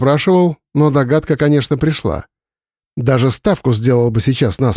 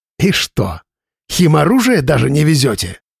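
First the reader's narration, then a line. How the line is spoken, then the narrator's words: Sudden angry smirk. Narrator (Russian): Внезапно зло усмехнулся майор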